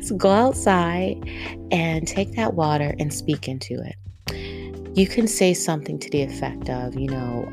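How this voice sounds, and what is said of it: East Coast American accent. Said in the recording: “my little accent, my East Coast accent.”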